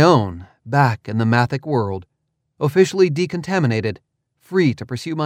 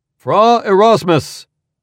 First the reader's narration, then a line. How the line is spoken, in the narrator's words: someone called out, as if I were being placed under arrest